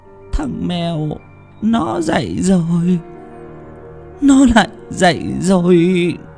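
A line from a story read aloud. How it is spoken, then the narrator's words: Crying. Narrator (Vietnamese): Mẹ khóc lóc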